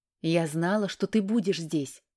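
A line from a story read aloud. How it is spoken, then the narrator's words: Amused snort. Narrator (Russian): хмыкнув, сказала мама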